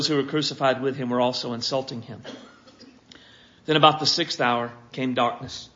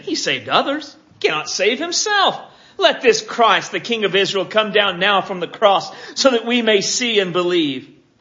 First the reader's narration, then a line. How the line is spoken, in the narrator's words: the chief priests also, along with the scribes, were mocking Him among themselves and saying